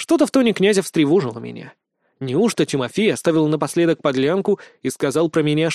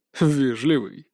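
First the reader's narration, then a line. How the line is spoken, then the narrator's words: Smirking snort. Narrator (Russian): хмыкнул Тигров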